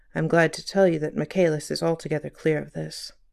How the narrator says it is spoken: The assistant commissioner added in a low tone

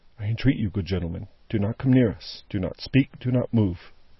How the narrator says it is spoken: she sat perfectly still in his grasp and only said, in a low voice

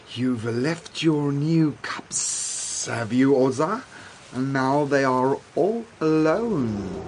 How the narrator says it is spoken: he hissed

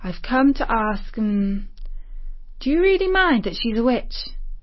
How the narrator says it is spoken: Shumash sighed

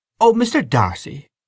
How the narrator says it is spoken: cried Mary Jane

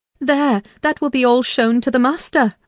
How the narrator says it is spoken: I exclaimed

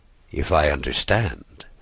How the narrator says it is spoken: said the doctor in a subdued tone

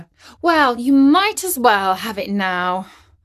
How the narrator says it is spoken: sighed Katie

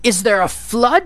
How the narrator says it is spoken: cried

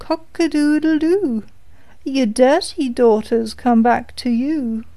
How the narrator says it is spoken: the cock on the well called out

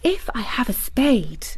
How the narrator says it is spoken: whispered

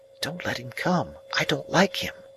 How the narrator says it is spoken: Biddy was much against his going with us, and said to me in a whisper

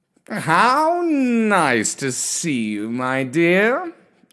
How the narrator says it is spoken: he purred

